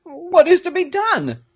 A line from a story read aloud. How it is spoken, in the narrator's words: cried Peterkin